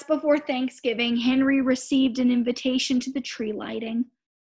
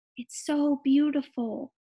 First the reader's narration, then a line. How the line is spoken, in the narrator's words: the girl said softly